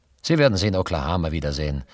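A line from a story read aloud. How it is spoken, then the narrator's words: Plain servant. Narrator (German): sagte der Diener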